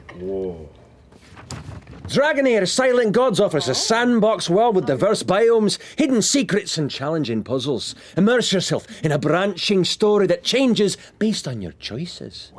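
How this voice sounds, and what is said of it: Put-on Scottish accent. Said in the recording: “Try the next part with, I don't know, a Scottish accent. ... Scottish”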